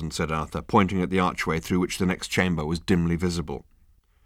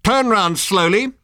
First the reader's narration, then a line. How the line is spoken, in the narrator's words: barked the voice